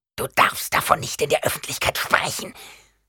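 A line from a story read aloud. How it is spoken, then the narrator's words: Horrified hiss, old woman. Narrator (German): zischte die alte Frau entsetzt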